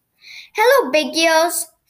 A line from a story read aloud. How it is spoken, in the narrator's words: cried Noddy